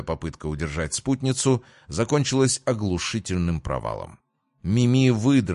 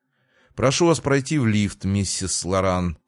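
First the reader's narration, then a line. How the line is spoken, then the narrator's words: Cold. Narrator (Russian): холодно произнес мужчина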